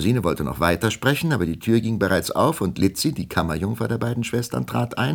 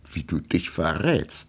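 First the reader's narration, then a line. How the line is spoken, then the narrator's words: Laughing, woman. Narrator (German): lachte Melusine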